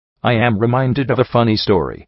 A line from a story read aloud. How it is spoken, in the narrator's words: Sekashi said brightly